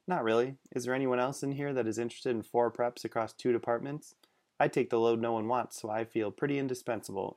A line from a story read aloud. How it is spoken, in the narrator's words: Aaron replied flatly